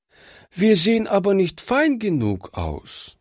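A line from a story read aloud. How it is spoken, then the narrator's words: Sad. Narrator (German): sagte traurig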